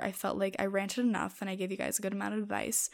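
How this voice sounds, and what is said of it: Scratchy, dry voice. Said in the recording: “My voice is kind of getting scratchy. I don't know if you guys can tell. My mouth is also very dry.”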